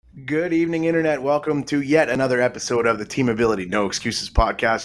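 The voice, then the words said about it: Slightly raspy voice. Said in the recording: “I'm a little raspy”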